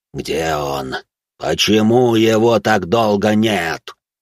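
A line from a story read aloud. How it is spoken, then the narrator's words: Deep inhuman near-wail. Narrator (Russian): Едва не завопило оно глубоким, нечеловеческим голосом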